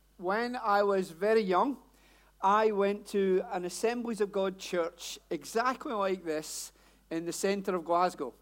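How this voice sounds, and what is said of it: Strong Glasgow Scottish accent. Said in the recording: “my accent is not London, Hellingdon, any of that. Born and bred in Glasgow... I know the accent sounds as though I've just got off the bus”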